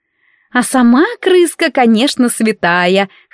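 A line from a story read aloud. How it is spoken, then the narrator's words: Short laugh. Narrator (Russian): хохотнула Барбара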